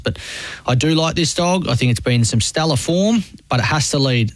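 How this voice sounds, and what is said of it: New Zealand accent. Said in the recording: “A snuff in the New Zealand accent”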